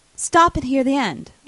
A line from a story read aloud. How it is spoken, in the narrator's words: I cried